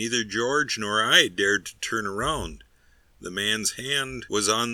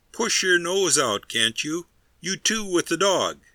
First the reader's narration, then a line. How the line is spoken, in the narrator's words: another cried